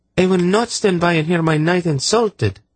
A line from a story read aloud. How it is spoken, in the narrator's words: Synedra declared hotly